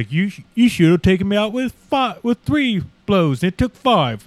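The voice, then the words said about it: Attempted British accent. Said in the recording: “I can't do a British accent. ... No, that was good. Great.”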